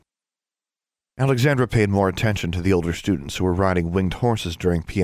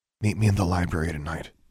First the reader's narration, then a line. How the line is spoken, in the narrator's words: Alexandra whispered